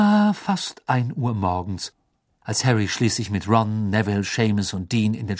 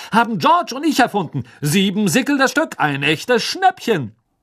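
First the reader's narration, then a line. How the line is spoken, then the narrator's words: Loud announcement. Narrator (German): verkündete Fred laut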